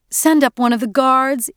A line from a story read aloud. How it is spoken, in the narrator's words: Edie pleaded